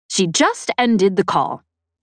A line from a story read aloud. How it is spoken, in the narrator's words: Embot said